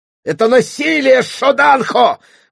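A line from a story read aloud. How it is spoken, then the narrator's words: Struggling squeal. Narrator (Russian): взвизгнула, пытаясь вырваться Аламанда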